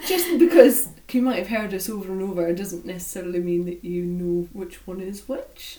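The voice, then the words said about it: Mild Scottish-Irish accent. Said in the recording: “Faye is the Scottish one ... I've got quite a tame, quite a mild kind of Scottish-Irish accent”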